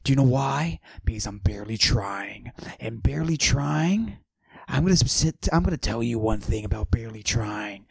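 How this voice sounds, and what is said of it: Low whispery tone. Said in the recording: “always whispering, and I'm always using a low tone of voice”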